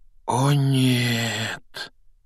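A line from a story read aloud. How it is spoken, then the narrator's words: Quiet dismay. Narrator (Russian): тихо произнес Рон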